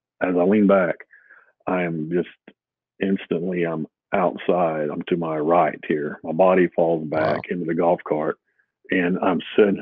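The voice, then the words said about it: Emotional, choked-up voice. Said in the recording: “I guess it's still a little emotional,”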